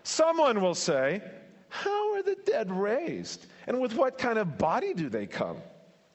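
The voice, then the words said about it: Snide, scoffing tone. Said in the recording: “by my tone of voice ... a question from a proud scoffer ... more of a snide remark”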